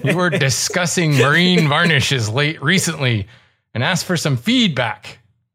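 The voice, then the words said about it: Pirate voice with Scottish accent. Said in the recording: “my Steve the Pirate voice ... That's Scottish ... Why does it keep coming out Scottish? It's a Scottish pirate.”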